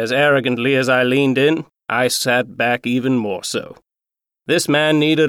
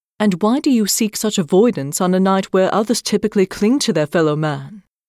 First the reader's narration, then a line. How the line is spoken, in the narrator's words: rather haughtily